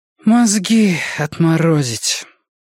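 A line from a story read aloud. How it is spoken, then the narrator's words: Breathy exclamation. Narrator (Russian): Выдохнула она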